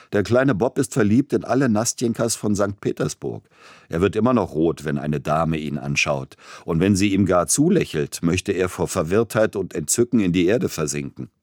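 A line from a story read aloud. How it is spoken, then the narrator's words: Young man laughing. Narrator (German): Einer seiner jungen Freunde sagte lachend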